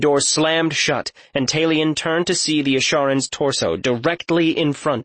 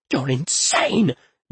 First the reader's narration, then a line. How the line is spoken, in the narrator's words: Jonan whispered